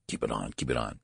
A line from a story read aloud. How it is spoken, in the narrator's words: said Mr